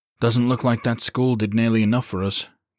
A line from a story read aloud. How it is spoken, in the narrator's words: Greer said dryly